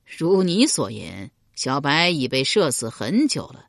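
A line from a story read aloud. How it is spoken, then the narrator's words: Sneering. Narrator (Chinese): 庄公一脸讥笑道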